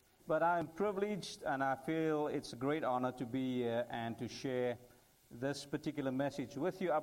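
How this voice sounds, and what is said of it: Slight foreign accent. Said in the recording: “I have a little bit of accent”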